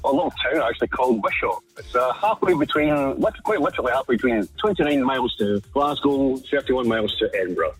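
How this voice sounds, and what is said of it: Scottish accent. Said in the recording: “I take from your accent, you're from north of the border. ... What part of Scotland are you from?”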